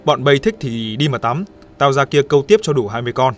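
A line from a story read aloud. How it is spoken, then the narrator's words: Serious tone. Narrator (Vietnamese): Thằng Hoàng mặt nghiêm nghị nói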